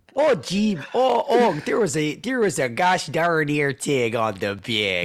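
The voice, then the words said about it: Put-on Wisconsin or Minnesota accent. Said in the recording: “it was either Wisconsin or Minnesota by the accent ... They also can't say Tig.”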